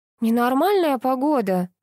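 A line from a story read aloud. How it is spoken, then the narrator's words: Exclamation. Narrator (Russian): воскликнула Лялечка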